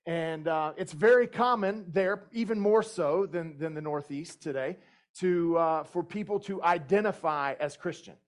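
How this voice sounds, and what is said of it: Southern US accent. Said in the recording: “My accent may give me away, but I grew up in the southeastern United States primarily.”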